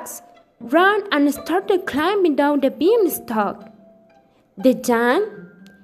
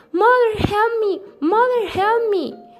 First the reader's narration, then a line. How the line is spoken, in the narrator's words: Jack shouted